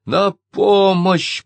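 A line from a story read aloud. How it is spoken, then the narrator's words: Hoarse wheeze. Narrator (Russian): прохрипел он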